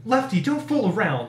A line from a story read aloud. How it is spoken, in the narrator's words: I snapped, feeling the stab of dread in the pit of my stomach